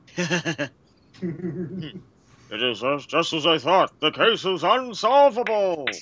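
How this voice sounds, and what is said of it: Dr. Zoidberg impression with accent. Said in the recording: “if you added a little bit more of an accent there, you might sound like Dr. Zoidberg ... That was perfect.”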